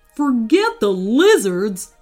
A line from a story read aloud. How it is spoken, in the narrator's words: snapped Wayne